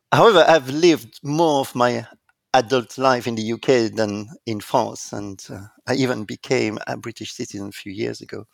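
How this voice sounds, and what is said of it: French-accented English. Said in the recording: “I was indeed born in France, and there is no doubt, as you can hear with my accent.”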